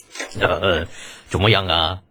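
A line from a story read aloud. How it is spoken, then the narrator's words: Hearty laughter. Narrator (Chinese): 程咬金 哈哈大笑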